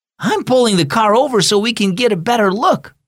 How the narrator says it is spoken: Mom squealed excitedly

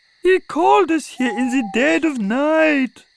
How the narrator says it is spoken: moaned Daffy

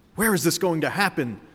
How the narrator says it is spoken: the frog asked excitedly

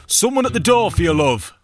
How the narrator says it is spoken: yelled inside

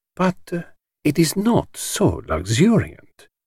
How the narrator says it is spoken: he murmured to himself

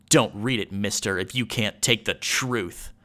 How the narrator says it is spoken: She snarled

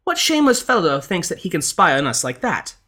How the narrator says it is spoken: the lady cried out

